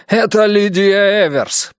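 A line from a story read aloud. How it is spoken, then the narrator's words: Nearly shouting. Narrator (Russian): почти закричал он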